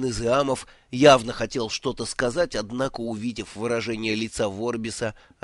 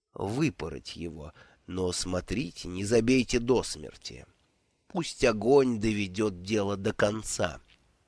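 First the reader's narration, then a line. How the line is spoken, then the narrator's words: Soft. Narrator (Russian): мягко произнес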